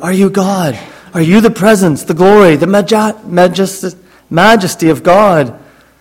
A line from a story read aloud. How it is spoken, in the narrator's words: Brubaker broke the silence when he whispered